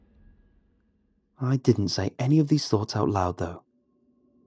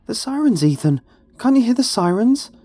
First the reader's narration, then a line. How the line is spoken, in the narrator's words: she gasped, barely able to get the words out